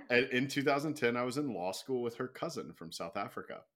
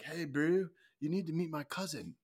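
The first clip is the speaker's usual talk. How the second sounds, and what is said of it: Put-on South African accent. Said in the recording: “that's my best South African accent.”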